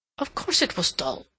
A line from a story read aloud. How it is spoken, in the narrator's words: William said sulkily